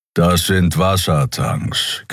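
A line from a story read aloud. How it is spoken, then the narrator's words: Growled. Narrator (German): knurrte Keero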